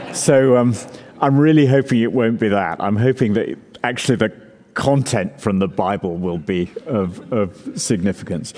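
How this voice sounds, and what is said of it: Speaks with a noticeable accent. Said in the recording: “so you can get used to my accent ... we love your accent”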